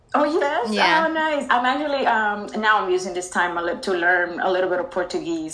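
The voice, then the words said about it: Speaks with a foreign accent. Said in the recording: “I can tell from your accent, girl.”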